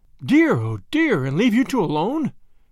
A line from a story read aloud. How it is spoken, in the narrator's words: cried Grandma